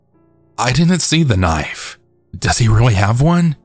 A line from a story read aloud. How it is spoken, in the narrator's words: R asked, his voice being super shaky